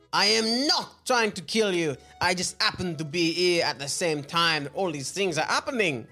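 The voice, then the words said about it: Put-on French accent. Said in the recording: “has there been any owl post about my French accent? ... No, I think you're doing great.”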